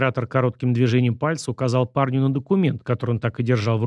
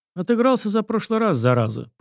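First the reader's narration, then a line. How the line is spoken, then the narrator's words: Knowing grunt to himself. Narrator (Russian): понимающе хмыкнул про себя Сашка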